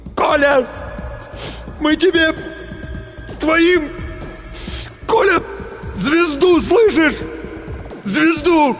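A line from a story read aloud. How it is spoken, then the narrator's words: Sobbing shout. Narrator (Russian): Демин всхлипнул, крикнул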